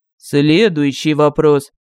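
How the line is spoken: Icy repeated tone. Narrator (Russian): повторил агент леденеющим тоном

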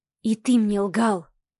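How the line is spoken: Very quiet girl's whisper. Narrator (Russian): Еще тише прошептала девушка

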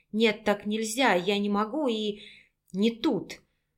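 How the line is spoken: Weak voice. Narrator (Russian): слабым голосом проговорила

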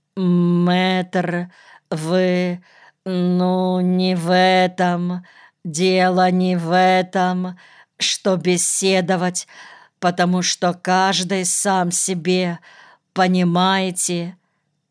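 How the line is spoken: Stammering, incoherent. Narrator (Russian): Ответил Арон, запинаясь и не очень вразумительно

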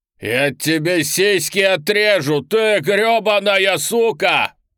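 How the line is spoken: Furious yelling. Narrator (Russian): орал Роман

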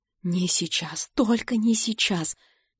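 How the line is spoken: Frightened muttering. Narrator (Russian): испуганно бормочу я

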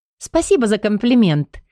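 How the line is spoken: Laughing. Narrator (Russian): рассмеялась Бенита

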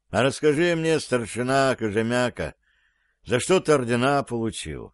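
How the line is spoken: Tired. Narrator (Russian): Корреспондент сказал устало

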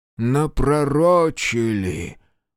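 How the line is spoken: Breathed out, priest. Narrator (Russian): выдохнул за его спиной отец Алексей

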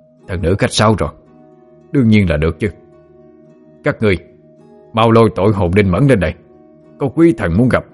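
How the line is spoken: Hurried flustered reply. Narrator (Vietnamese): Quỷ sai vội rối rít đáp

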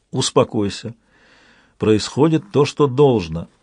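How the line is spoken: Gentle but firm. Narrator (Russian): ласково, но твердо отозвалась проказница

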